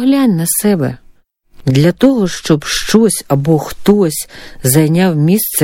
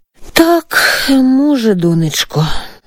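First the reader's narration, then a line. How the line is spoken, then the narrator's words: Mother sighing. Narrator (Ukrainian): зітхнула мати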